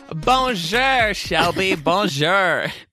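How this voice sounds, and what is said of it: Deliberately bad French accent. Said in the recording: “Very bad French accent.”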